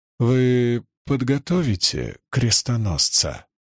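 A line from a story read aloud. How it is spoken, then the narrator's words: Gentle question. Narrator (Russian): мягко спросил Леклерк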